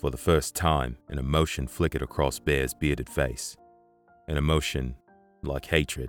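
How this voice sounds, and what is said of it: Usual voice. Nothing is said of it.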